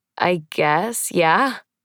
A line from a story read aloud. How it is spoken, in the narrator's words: say with a small laugh